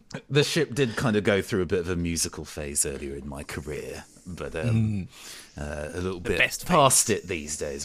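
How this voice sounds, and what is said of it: Gravelly voice. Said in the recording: “My voice is a little bit too gravelly”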